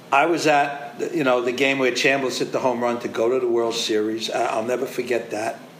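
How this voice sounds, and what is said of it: Choked-up, tearful voice. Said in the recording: “You hear me crying? ... getting choked up”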